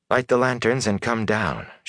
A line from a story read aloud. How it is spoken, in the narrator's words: she called softly